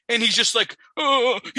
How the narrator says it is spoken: he whimpers

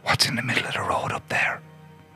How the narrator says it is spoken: my friend in the driver's seat whispers

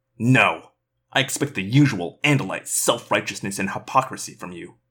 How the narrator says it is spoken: Eslin spat

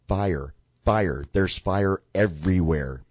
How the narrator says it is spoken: started screaming, and she yelled

